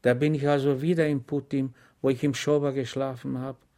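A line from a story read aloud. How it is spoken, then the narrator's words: Sighing. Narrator (German): seufzte Schweg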